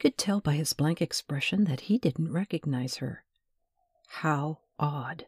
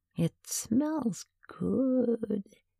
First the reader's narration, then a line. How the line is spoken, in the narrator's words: purred